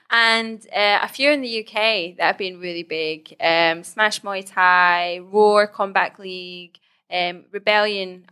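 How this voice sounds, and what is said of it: Speaks with a noticeable accent. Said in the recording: “sorry, the accent.”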